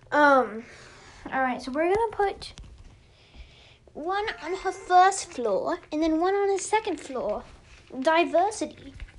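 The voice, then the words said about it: Speaks in a put-on accent. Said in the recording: “I don't know what that accent was.”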